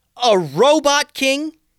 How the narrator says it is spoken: yelled Tatiana, full on angry now

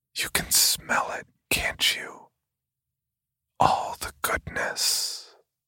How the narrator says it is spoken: He whispered in my ear

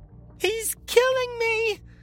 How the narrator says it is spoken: Javelin wailed, a banshee's voice that ricocheted around the walls of the crematorium

